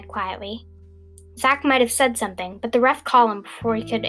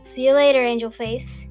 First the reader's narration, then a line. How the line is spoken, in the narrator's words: he said in a flirtatious tone